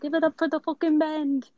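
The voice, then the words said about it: Bad put-on British accent. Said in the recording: “I'm sorry for my British accent, that was really bad”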